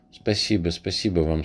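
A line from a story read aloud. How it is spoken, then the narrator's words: Plain. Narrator (Russian): сказала она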